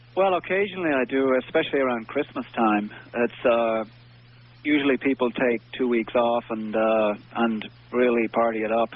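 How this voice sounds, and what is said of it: Irish accent. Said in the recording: “It's actually a really common name in Ireland ... You have to say it with an Irish accent”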